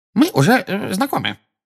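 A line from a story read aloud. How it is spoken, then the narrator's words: Squeaky, easily flustered. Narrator (Russian): пропищал чуть что приходящий в волнение Дингл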